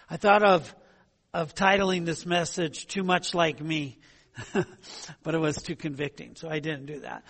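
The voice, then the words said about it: Strained, fading voice. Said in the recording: “I'm losing my voice already.”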